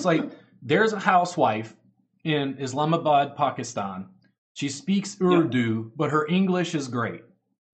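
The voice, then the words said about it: Texas twang accent. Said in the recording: “my Texas twang English”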